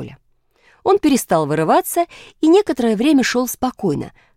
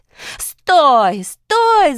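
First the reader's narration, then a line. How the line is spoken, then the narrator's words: Shouting while chasing. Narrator (Russian): закричала Дарья Семеновна, бросаясь за ним вдогонку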